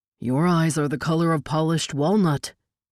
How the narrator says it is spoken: He studied her solemnly and then said

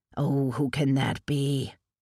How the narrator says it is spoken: Lane grumbled

